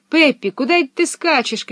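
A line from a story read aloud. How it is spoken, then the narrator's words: Shouting after someone. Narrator (Russian): кричали ей вслед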